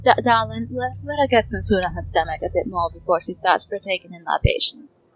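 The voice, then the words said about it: Character accent. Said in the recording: “I'm dropping out of my accent”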